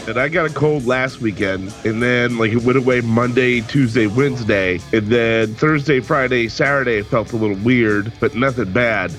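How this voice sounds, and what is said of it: Sick, strained voice from sore throat. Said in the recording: “my throat is just, my tonsils are so swelled up right now ... if I sound weird, that's because of that”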